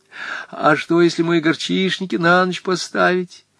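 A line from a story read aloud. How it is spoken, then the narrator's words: Sobbing question. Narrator (Russian): спросила Наталья Кузьминична, всхлипывая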